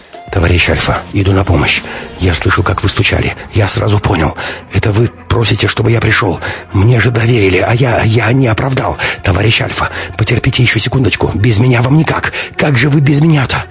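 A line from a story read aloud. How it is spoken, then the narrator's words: Mumbling ever faster. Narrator (Russian): Максим бормотал все быстрее и быстрее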